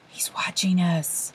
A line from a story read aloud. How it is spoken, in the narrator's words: Morton whispered